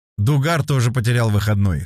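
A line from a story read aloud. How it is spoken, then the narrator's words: Chuckling. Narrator (Russian): хохотнул Баташов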